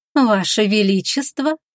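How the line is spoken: Cooing. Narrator (Russian): проворковала Иларис

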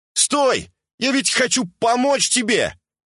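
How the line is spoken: Desperate shout. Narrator (Russian): Отчаянно кричал, продолжая преследование

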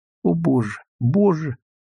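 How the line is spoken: Frightened, plaintive, growing horror. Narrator (Russian): пугливо и жалобно восклицала она с каждой минутой, яснее сознавая весь ужас случившегося

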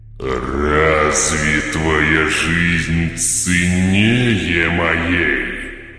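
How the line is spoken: Demonic growl. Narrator (Russian): прорычал демоническим голосом Игорь

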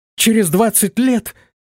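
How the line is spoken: Astonished exclamation. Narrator (Russian): воскликнула пораженная девушка

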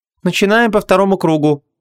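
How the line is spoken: Tired sigh. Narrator (Russian): устало вздохнула Ванесса

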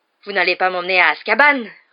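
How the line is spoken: Roaring. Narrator (French): rugit Hagrid

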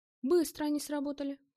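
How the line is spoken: Exclaimed. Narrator (Russian): воскликнул

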